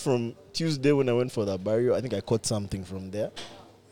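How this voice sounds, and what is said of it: Sick, slightly off-sounding voice. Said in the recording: “my voice is kind of funny today. I feel a bit sick”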